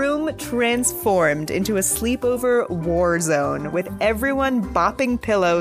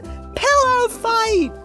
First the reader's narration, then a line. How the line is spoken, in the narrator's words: everyone yelled